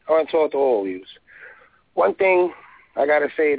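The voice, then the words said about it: Distinctive New York accent. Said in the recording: “this is a great voice ... with this accent”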